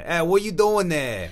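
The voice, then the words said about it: Imitated New York accent, nasal. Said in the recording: “it's kind of like the Boston accent in a way that they don't really say the R's as much ... New Yorkers are just kind of like ... a lot of words become. Nasalized.”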